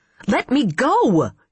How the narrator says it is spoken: she shouted

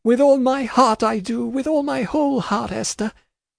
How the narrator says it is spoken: sobbed out

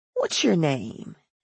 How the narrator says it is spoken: she asked in a drowsy voice

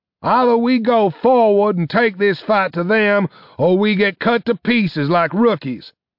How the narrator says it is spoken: shouted Arcturus

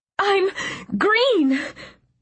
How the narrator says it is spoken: I sobbed, the words half lost to the machine's buzzing

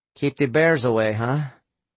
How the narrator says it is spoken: Adelio agreed nervously

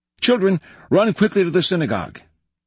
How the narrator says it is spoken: he cried

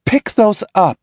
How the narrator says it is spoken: she snaps

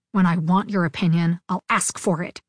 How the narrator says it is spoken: spat, struggling against his boot

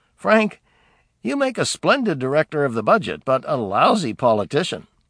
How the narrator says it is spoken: Truman, with a chuckle, had replied

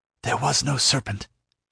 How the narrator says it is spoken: she whispered

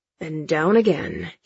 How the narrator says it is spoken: he mutters

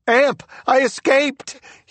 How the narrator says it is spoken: he shouted

